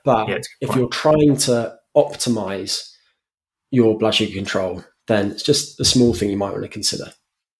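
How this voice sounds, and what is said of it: British accent. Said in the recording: “always delivered with your amazing British accent”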